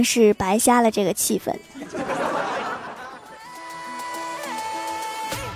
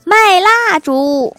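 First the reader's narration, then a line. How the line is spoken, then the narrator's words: Strained roar. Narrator (Chinese): 憋了半天，他抬头吼道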